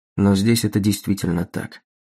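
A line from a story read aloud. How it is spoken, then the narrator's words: Calm and confident. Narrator (Russian): Голд добавил спокойно и уверенно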